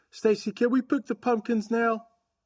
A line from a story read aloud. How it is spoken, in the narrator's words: A boy in a woolly hat called out